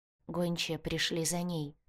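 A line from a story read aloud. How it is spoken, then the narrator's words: Quiet reply. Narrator (Russian): тихо ответила Алекс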